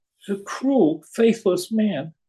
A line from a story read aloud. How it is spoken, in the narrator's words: cried